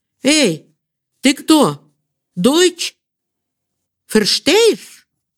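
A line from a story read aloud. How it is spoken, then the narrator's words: Child shouting. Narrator (Russian): кричал, несомненно, русский и, несомненно, ребенок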